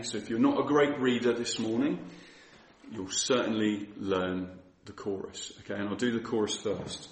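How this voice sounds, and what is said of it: Unusually deep morning voice. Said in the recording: “I woke up with a very deep voice this morning”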